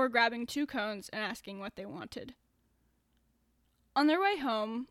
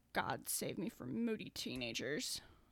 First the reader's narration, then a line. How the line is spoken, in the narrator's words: his softly muttered